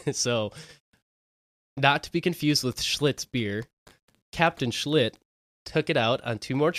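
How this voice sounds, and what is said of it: Usual voice. Nothing is said of it.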